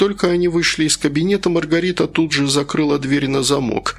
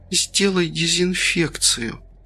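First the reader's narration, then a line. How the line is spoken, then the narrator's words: Faint whisper. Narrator (Russian): еле-еле прошептала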